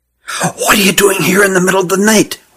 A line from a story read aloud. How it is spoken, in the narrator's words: whispered Hutt, rubbing sleep from his eyes